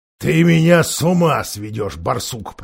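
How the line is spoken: Grumbling. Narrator (Russian): проворчал Никабрик

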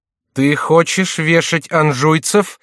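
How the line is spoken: Incredulous shout. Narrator (Russian): закричала Екатерина, не доверяя своему слуху и не считая сына своего способным на такой безрассудный поступок

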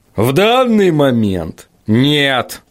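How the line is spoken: Grumbling. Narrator (Russian): проворчал Ваймс

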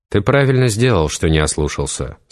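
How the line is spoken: Plain, inquisitor. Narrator (Russian): сказал инквизитор

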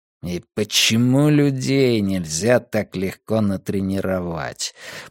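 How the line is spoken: Grumbling. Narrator (Russian): пробурчал Каз

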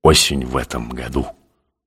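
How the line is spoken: Strained, forced out. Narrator (Russian): Грузный седой дядька, напрягшись, выдавил

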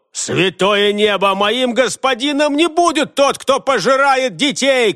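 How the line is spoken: Shouting. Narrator (Russian): крикнул он

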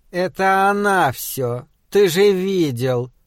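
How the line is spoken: Grumbling. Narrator (Russian): пробурчала мне Суккуб

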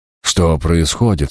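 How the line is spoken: Quavering voice. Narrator (Russian): спросил он дребезжащим голосом

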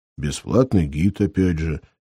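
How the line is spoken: Quiet. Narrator (Russian): тихо сказал Бугаев

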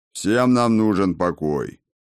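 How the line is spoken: Curt deep bass. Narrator (Russian): густым басом отрезал гном

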